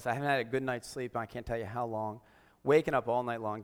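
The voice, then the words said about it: Sick-sounding voice. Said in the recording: “I've been sick for 3 weeks. You can hear in my voice.”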